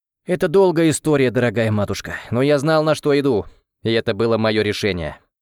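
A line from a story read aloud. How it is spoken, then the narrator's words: Plain. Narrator (Russian): ответил Эл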